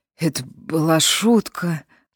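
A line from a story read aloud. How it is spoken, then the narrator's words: Hoarse woman. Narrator (Russian): хрипло проговорила она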